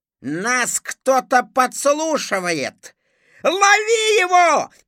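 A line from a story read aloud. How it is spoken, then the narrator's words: Shouted. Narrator (Russian): крикнул Зыза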